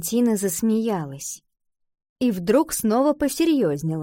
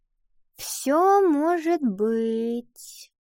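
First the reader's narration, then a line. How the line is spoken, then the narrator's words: Vague drawl. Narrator (Russian): неопределенно протянула Ива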